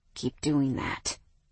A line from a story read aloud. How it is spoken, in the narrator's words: he growled